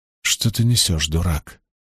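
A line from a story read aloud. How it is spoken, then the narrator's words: Muttering under breath. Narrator (Russian): пробормотал он себе под нос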